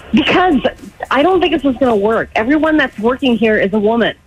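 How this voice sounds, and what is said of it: Nervous-sounding voice. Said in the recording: “Why do you sound so nervous?”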